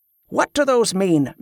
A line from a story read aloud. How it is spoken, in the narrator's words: Merritt shouted